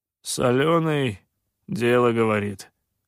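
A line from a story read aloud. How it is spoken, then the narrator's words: Gloomy grumble. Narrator (Russian): мрачно проворчал сутулый Ксилай с порванным ухом и шмыгнул носом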